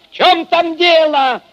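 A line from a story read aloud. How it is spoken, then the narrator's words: Shout into darkness. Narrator (Russian): Крикнул он в темноту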